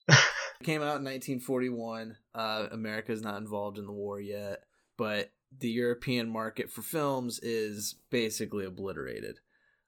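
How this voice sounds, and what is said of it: American accent. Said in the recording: “U.S. base, if you couldn't tell by our accents.”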